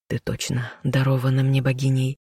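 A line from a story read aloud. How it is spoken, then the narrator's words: Smiling whisper. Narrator (Russian): прошептал он, улыбнувшись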